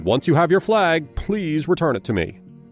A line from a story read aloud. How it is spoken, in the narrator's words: Reginald shouted